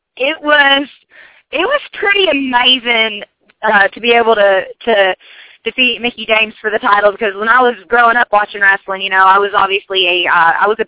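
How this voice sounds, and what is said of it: Southern American accent. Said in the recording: “I absolutely love your accent... I love Southern accents.”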